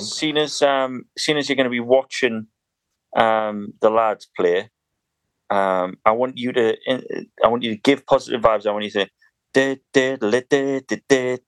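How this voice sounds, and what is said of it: Northern English burr accent. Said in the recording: “your sort of beautiful, beautiful burr. Do you call it a burr in North your accent?”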